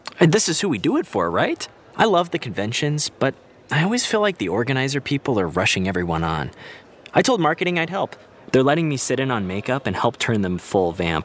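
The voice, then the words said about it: Excited, eager speaking. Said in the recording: “do you sound so excited?”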